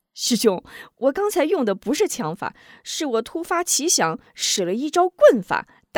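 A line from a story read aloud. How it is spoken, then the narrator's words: Laughing. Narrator (Chinese): 吴中笑道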